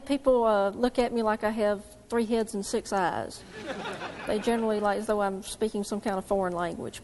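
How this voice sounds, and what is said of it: Southern US accent. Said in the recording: “this young lady is from the South ... your accent”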